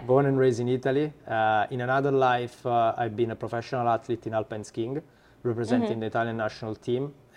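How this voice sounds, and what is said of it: Italian accent. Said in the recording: “As you can probably hear from my accent, I'm Italian.”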